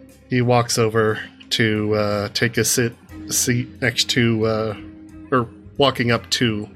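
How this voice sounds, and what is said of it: Usual voice. Nothing is said of it.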